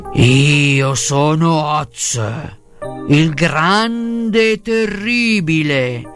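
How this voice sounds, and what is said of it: Roaring beast character voice. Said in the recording (Italian): “con una voce che fu un solo grande ruggito”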